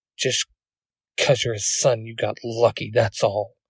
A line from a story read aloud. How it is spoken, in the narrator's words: he mutters under his breath